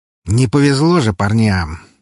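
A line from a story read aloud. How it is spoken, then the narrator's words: Sarcastic sigh. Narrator (Russian): ехидно вздохнул мой сосед слева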